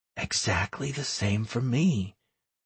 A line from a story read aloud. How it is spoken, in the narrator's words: whispered the girl